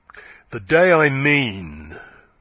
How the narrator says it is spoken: said Yeobright, his voice growing louder and harsher

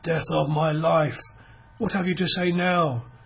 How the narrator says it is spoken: he cried, his voice husky

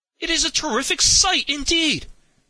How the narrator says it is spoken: cried Henry

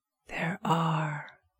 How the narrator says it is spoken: whispered Robert

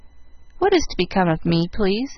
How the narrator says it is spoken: asked Jill meekly

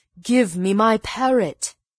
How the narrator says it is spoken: cried

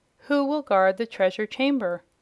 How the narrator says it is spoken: exclaimed the surprised Jimfred

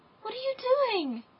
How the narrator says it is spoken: cried the little girl

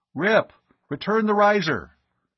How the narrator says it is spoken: He spoke urgently into the throat mic of his helmet comm

